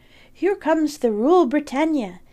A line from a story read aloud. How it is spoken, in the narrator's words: exclaimed